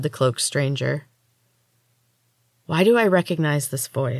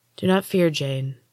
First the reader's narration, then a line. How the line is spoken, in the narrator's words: the woman said in a soothing voice